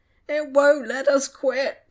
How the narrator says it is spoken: Tom whined

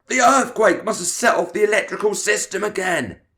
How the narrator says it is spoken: he shouted

